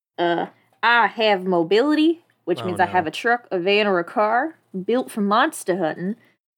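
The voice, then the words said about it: Wavering put-on Southern US accent. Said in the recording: “let me get into character ... This is accent. It's gone. Not the right kind of South. ... You keep on just traveling to different parts of the South.”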